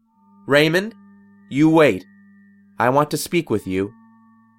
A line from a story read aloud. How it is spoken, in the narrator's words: Maria abruptly shouted